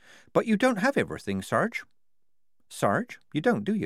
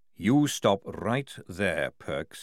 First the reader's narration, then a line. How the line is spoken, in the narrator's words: he said, lowering his voice